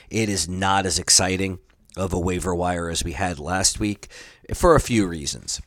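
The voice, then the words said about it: Unwell voice, not usual sound. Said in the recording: “I am a bit under the weather, so my voice is not what it is usually”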